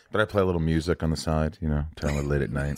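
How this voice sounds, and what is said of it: Sexy, seductive voice. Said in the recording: “sexy voice”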